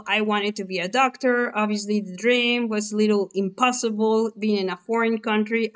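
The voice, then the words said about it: Mexican accent. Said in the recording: “my accent didn't give me away, guys, I'm Mexican”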